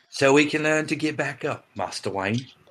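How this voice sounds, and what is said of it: Bad Michael Caine impression. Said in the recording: “He's Michael Caine. ... A mythical version of England where everyone has the accent I have. ... Which means a bad one.”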